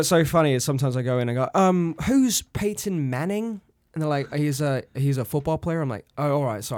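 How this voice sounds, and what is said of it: Usual voice. Nothing is said of it.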